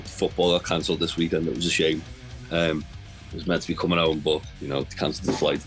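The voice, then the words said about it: Very hoarse voice. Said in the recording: “I sound very hoarse, as you can probably tell. ... my voice is also very hoarse from that.”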